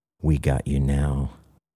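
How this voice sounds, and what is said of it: Low, breathy voice. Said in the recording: “breathed in a low voice”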